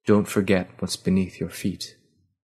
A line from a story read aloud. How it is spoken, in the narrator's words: spoken softly